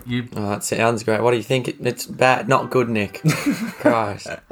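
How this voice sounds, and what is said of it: Croaky, much deeper hoarse voice. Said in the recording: “Voice a bit croaky ... He dropped a couple of octaves there, hasn't he?”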